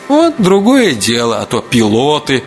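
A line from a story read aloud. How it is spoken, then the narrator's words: Bursting with laughter. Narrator (Russian): Настя закатилась хохотом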